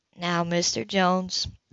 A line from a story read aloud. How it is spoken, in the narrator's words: the counselor said gently